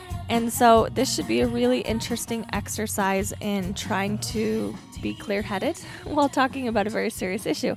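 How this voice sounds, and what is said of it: Voice off from a cold. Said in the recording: “my voice sounds a little off, that is because I am fighting a really bad cold”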